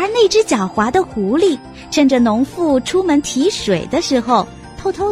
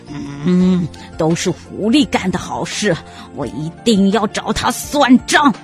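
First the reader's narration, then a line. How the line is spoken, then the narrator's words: Furious, through gritted teeth. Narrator (Chinese): 狼气急了，咬牙切齿地说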